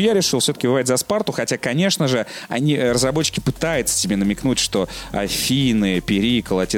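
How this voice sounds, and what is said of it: Usual voice. Nothing is said of it.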